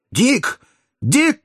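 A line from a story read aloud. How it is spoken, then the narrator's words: Shouting. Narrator (Russian): крикнул доктор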